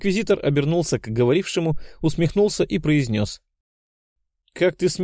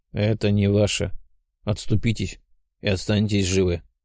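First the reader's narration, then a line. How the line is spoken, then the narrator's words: Rough low voice. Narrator (Russian): Один из них сказал грубым низким голосом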